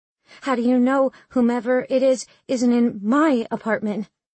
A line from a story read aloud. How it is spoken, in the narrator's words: asked wildly